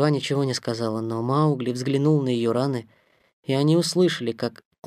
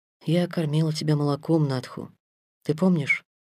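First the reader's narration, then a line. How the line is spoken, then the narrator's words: Timid question. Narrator (Russian): робко спросила Мисуа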